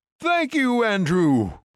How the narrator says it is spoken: Marky shouted aloud

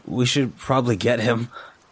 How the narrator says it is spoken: he said

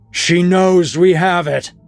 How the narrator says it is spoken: A booming voice erupted behind her

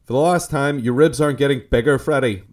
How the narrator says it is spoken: Martin barked impatiently

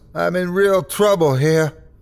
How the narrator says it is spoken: I screamed into the phone

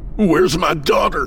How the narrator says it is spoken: His scream brought a sharp, throbbing pain across the right side of his face

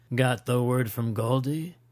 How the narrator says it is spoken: he asked

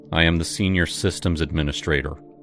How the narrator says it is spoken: I said, my voice flat

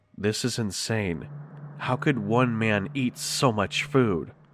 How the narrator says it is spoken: The captain whispered this to me under his breath

